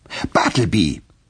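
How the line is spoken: Raised voice. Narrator (German): mit erhobener Stimme

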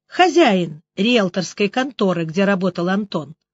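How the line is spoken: Calm explanation. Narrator (Russian): спокойно пояснила Алена

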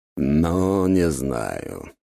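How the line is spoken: Doubtful, drawn-out. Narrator (Russian): с сомнением в голосе протянул Дориан

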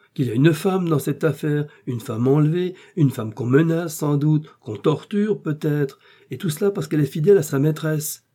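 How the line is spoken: Cried out. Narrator (French): s'écria D'Artagnan

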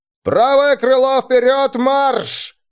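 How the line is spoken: Yelled. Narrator (Russian): заорал

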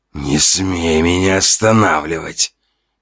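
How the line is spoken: Hiss full of rage and pain. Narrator (Russian): прошипел, слова сочились гневом, яростью, первобытной болью

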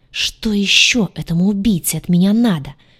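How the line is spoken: Angry hiss. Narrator (Russian): в сердцах прошипела

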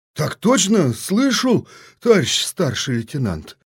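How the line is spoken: Crushed reply. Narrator (Russian): Убитым голосом ответил ефрейтор

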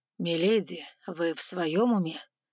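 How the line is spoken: Slightly hoarse question. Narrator (Russian): с легкой хрипотцой спросил он

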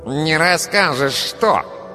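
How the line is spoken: Nasal voice nearby. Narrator (Russian): спросил гнусавый голос рядом

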